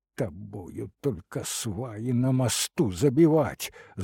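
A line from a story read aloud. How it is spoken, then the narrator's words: Angry hiss. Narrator (Russian): злобно зашипел Лопахин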